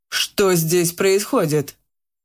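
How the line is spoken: Stern question. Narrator (Russian): строго спросил управляющий

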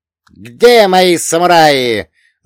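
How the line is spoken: Yelling. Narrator (Russian): заорал он

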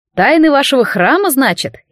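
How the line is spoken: Snide sarcastic tone. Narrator (Russian): ехидно сказал Аргиан

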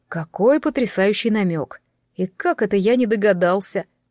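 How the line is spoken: Laughing. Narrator (Russian): рассмеялся Ян

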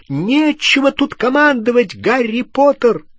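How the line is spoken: Shouted. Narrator (Russian): крикнула она

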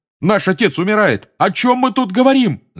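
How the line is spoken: Yelling. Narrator (Russian): заорал Джордж

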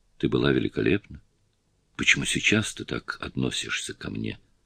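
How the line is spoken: Whispered. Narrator (Russian): Сьюзи прошептала Петти

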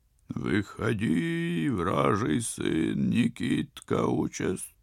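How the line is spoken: Muffled rattling distant boom. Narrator (Russian): Глухо, с неприятным дребезжанием, прогромыхало с того берега

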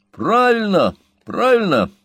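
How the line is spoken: Shout. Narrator (Russian): крикнул Сэм

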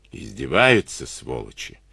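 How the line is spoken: Lazy cursing. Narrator (Russian): Лениво выругался он

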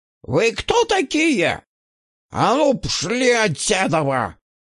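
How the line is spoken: Shouting. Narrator (Russian): кричал стрелок

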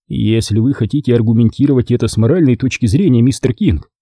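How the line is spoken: Fairly gentle. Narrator (Russian): сказал я довольно мягко

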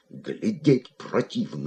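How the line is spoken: Muttering. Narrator (Russian): бормотал он

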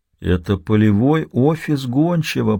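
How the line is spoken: Whisper. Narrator (Russian): прошептал Донован

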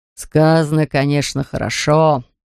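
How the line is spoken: Mocking reply. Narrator (Russian): насмешливо ответил папа Ларсен

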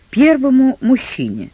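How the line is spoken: Plain. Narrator (Russian): ответил Тед

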